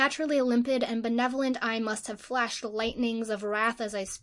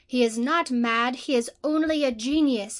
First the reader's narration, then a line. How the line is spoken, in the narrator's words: exclaimed my gigantic and generous Marchionessa, taking my part